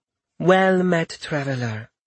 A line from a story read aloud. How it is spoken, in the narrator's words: she said in a smooth, melodic voice